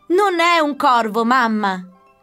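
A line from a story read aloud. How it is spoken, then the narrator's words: Laughing. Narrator (Italian): rise Camilla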